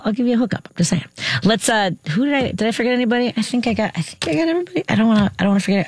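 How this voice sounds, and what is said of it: Talking very fast. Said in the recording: “I'm talking too fast.”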